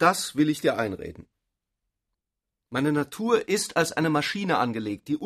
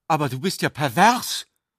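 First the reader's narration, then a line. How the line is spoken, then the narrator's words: Sudden warning exclamation. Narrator (German): rief sie plötzlich im Ton einer warnenden Prophezeiung aus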